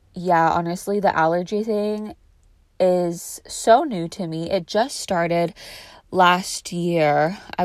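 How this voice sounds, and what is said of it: Nasal-sounding voice. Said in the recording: “I just sprayed some allergy sinus relief spray in my nose, so I'm sorry if the nasal tone in my voice is a little annoying. It will dissipate soon.”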